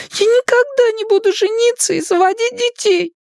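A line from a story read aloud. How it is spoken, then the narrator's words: Tearful announcement. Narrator (Russian): объявила Элли сквозь слезы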